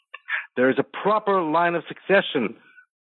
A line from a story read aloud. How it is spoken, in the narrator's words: the man on the crate yelled